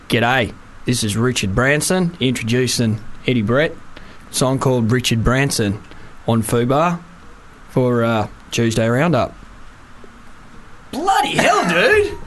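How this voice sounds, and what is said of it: Put-on Australian accent. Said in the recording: “Can I do it in the Australian accent”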